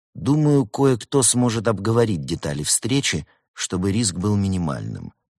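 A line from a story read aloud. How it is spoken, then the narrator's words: Plain. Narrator (Russian): сказал Улис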